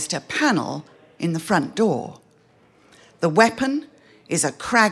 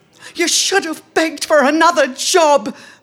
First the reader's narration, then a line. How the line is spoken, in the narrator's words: Marie cries